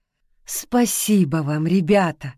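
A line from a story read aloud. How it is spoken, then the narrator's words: Woman's exclamation. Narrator (Russian): воскликнула одна из женщин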